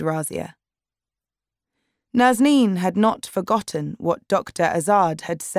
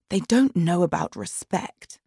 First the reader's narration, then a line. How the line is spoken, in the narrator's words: whispered Razia